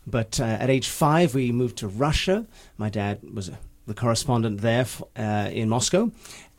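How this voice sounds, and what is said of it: English accent. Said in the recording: “Despite the accent, ... So hence the accent, my formative years were in England.”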